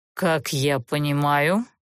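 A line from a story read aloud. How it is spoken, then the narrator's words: Cold inquiry. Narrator (Russian): холодно поинтересовался Олтерн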